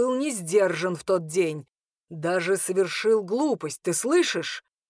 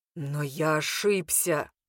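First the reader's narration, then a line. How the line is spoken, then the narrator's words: Admitting again. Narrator (Russian): вновь признал он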